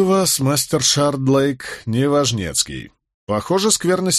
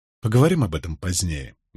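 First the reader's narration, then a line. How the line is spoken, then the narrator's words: Quiet. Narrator (Russian): негромко произнес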